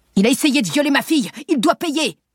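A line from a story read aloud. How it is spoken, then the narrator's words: Shouting. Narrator (French): crie-t-il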